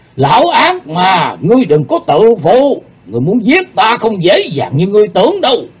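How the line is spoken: Angry shout. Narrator (Vietnamese): Thần Phong đạo nhân giận dữ quát lên

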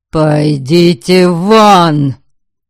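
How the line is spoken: Menacing bark. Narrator (Russian): Вновь грозно рявкнул Дориан

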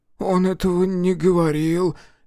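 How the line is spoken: Barely audible. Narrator (Russian): еле слышно произнес Сэм

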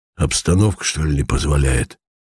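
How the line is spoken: Hoarse voice asking. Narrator (Russian): спросил хриплый голос

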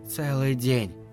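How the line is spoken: Whisper. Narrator (Russian): прошептала она

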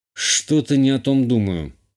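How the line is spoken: Grumble under breath. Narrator (Russian): буркнул себе под нос

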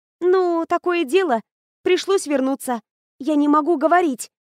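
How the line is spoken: Hurried pleading. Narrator (Russian): взмолилась торопливо

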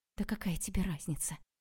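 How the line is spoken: Quiet. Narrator (Russian): тихо сказала Ксю

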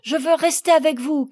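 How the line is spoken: Shouting. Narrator (French): criait-il

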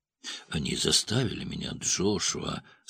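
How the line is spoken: Quiet. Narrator (Russian): сказал он негромко

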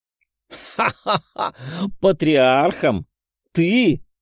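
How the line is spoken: Loud laughter. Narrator (Russian): Во весь голос рассмеялся Тео

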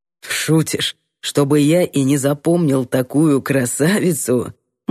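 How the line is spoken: Man's amused snort. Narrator (Russian): Мужик хмыкнул

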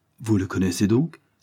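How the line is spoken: Surprised exclamation. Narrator (French): s'écria William avec surprise

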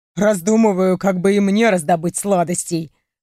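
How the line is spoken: Chuckling. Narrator (Russian): хохотнул он

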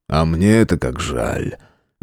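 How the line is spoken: Sighed. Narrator (Russian): Вздохнул Виктор

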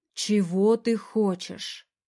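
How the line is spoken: Man, calmer tone. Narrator (Russian): уже более спокойно произносит мужчина

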